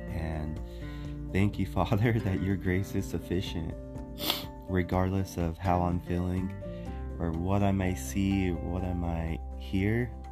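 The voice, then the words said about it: Congested, stuffy-nosed voice. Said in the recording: “I have a little bit of a stuffy nose, so if you're wondering why if my voice sounds a little bit off”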